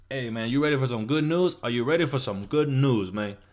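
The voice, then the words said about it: Put-on Cuban accent. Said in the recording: “he has like a Cuban accent”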